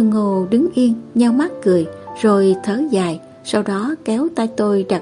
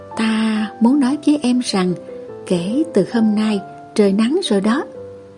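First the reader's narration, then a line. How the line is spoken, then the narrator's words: Whisper. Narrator (Vietnamese): giọng thì thầm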